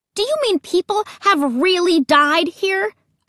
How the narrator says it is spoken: I shouted

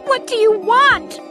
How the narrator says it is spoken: I cried

